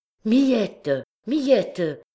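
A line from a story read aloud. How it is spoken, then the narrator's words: Exclaimed. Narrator (French): s'écria-t-il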